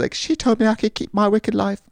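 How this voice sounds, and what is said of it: Put-on British accent. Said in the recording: “That's not her accent at all. She's not British. I don't know why I did that.”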